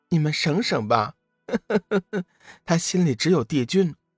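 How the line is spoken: Loud laughter. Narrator (Chinese): 桂花仙子放声大笑

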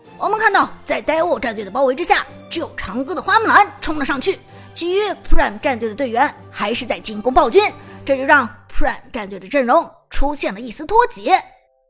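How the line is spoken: Loud, excited commentary. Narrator (Chinese): 解说子豪大声激动地说

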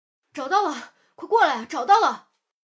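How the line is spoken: Shout. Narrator (Chinese): 这一声呼喊

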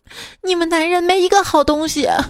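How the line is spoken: Crying. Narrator (Chinese): 女儿跟医生哭着说

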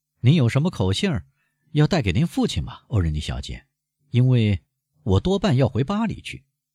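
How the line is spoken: Shameless, smirking. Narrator (Chinese): 安德烈亚带着无耻的笑容说

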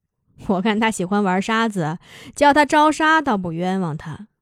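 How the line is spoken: Laughing. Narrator (Chinese): 柳沙笑着说

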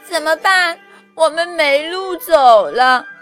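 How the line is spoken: Crying. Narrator (Chinese): 红鲤鱼哭着说

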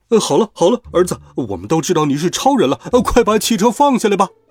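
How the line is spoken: Parents calling out. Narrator (Chinese): 他爸爸妈妈在一边喊着

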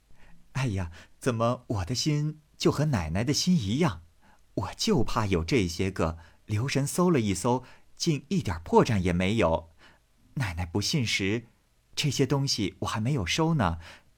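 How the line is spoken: Sly sinister laugh. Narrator (Chinese): 平儿阴笑道

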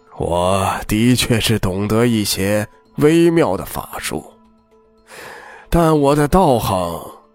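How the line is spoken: Sighing, embarrassed. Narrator (Chinese): 族长叹了口气，有些羞愧的说

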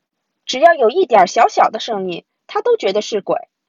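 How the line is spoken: Mocking. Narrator (Chinese): 我嘲笑道

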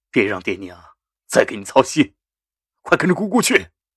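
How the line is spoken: Cold, steeled voice. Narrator (Chinese): 杜仲硬硬心肠，冷声说着

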